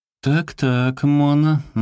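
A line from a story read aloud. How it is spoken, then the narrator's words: Mocking. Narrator (Russian): насмешливо сказал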